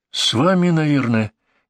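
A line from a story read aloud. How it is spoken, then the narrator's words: Uncertain reply. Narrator (Russian): неуверенно отвечает Сергей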